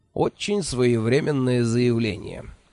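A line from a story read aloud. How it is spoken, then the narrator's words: Snide reply. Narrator (Russian): ехидно откликнулся Джуфин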